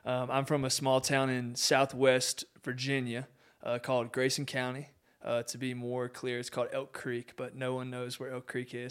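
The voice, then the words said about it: Southern US country accent. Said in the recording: “your audience can probably pick up on the country accent”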